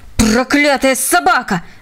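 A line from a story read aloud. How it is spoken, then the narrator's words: Shout. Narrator (Russian): закричал полковник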